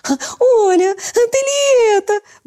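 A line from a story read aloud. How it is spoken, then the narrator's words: Sudden squeal. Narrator (Russian): вдруг завизжала Верочка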